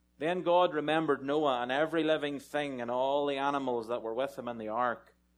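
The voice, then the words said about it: Speaks with a noticeable accent. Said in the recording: “If you can't understand my accent”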